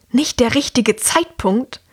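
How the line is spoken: Louder hissing woman. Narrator (German): zischt die Frau jetzt lauter

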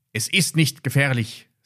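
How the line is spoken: Firm voice. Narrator (German): sagte Ben mit fester Stimme

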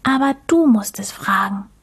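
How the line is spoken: Whisper. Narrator (German): flüsterte Mucks

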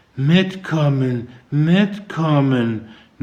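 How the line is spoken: Mumbled to herself. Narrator (German): nuschelte sie vor sich hin

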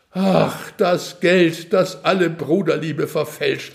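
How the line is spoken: Sighing. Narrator (German): seufzte Sinnerklaus

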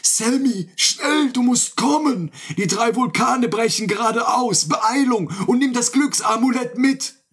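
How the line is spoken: Call. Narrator (German): rief er

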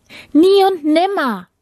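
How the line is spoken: Calling out. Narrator (German): rief die Prinzessin

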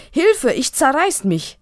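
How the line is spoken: Straining roar. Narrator (German): Fast im Spagat brüllt Pelendo

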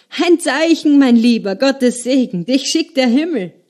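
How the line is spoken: Loud slurring. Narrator (German): lallte er laut

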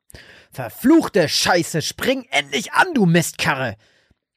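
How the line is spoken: Bellowing. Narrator (German): brüllte Frank

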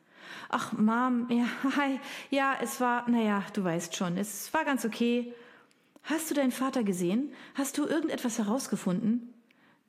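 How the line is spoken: Sighing. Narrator (German): Jen seufzte

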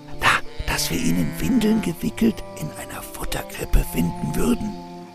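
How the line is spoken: Whispered. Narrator (German): flüsterte Mosche, staunend

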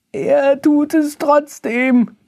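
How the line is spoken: Calling out. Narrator (German): rief Baktus

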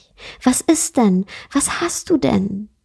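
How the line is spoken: Anxious question. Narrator (German): fragte er ängstlich

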